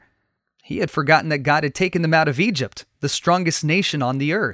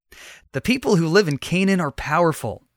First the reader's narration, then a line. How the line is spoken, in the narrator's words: one spy said